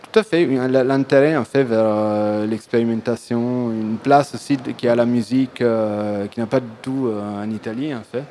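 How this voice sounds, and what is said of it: Italian accent. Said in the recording (French): “on apprécie cet accent italien”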